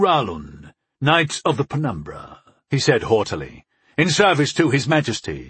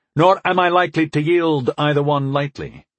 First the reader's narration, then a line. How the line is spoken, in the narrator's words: I agreed evenly